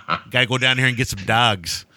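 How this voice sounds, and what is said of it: Imitated Chicago Midwest accent. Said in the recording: “he never shook that accent ... Chicago ... he definitely has that Midwest city accent”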